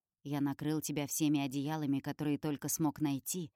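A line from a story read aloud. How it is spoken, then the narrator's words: Plain. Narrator (Russian): говорит он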